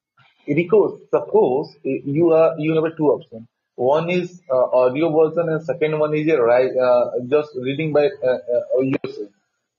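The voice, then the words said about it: Thick, strong accent. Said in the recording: “Your accent's pretty thick ... I wish your accent was a little less strong so I could understand you a little clearly”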